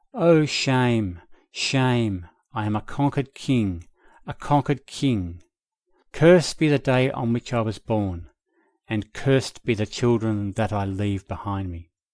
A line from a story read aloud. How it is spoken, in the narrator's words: As he grew worse, his mind became more and more excited, and his attendants from time to time heard him moaning in his anguish